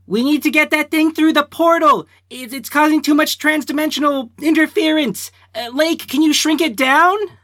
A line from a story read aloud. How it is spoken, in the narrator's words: Nick's gonna yell